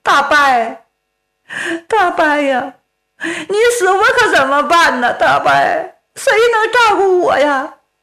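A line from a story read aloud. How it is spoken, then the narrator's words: Tearful, wretched wailing. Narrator (Chinese): 哭的是声泪俱下，凄凄惨惨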